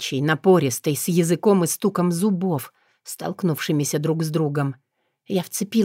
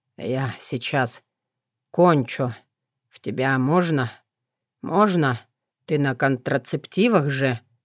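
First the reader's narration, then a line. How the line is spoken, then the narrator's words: Breathless exhale. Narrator (Russian): выдохнул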